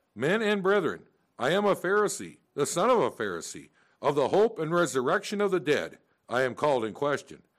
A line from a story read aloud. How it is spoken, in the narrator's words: he cried out in the council